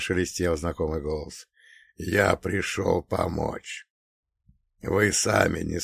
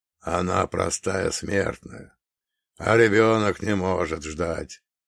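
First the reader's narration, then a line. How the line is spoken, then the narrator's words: Creaky reply. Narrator (Russian): проскрипел в ответ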